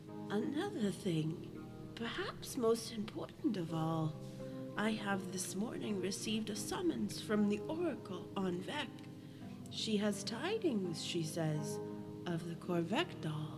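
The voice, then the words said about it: Old lady character voice. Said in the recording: “Good old lady voice”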